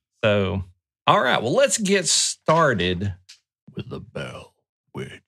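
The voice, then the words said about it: Spooky voice. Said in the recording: “That was my spooky voice.”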